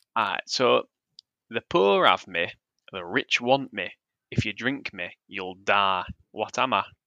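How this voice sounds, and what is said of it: Put-on Yorkshire accent. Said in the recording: “give us a riddle in a Yorkshire accent ... I'll go as Yorkshire as can”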